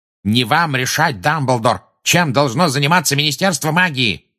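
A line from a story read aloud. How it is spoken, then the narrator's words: Furious barking roar. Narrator (Russian): рявкнул Фадж, теперь уже пурпурный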